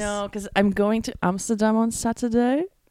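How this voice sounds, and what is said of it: Attempted Dutch accent, sounds British. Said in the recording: “Why are we doing this accent? It doesn't sound Amsterdam. Dutch whatsoever. It sounds kind of British, if I'm being honest.”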